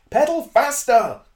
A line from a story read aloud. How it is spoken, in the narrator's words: cried the Doctor